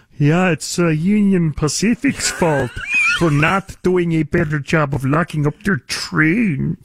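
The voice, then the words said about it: Imitated voice, Kermit-like Romanian accent. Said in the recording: “what the hell is that accent, George Gascon impersonation? ... it's as if Kermit the Frog had been born in Romania”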